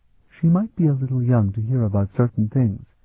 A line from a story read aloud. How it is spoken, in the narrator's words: Mirtai murmured